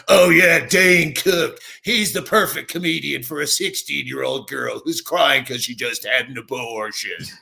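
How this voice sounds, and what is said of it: Impression of Dave Attell. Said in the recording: “That's a pretty good impression.”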